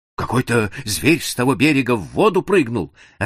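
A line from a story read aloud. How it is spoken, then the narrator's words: Frightened answer. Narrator (Russian): ответил испуганно караульный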